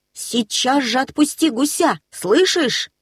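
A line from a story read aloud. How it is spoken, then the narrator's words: Shouting. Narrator (Russian): закричал Нильс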